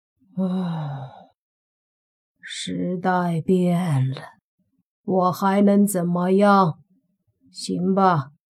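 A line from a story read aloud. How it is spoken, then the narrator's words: Sighing. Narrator (Chinese): 蓝眼僵尸叹了口气，说道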